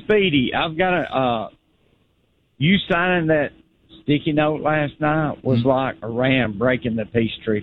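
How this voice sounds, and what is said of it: Caller's noticeable regional accent. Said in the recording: “And the accent makes it even better.”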